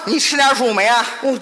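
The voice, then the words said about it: Awkward strong regional accent. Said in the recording (Chinese): “你这口音太别扭了”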